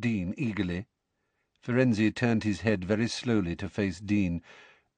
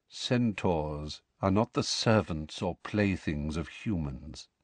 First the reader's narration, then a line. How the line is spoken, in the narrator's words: said Firenze quietly